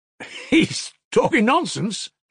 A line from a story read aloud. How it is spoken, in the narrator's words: he laughed, his short wooden laugh, seeming suddenly delighted